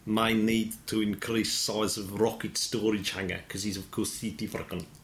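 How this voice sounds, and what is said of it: Put-on South African accent. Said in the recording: “Was that his accent? ... his accent is actually ... apologies to any South Africans listening. ... a lot of South Africans will say that's a very good impression. ... maybe a little bit District 9.”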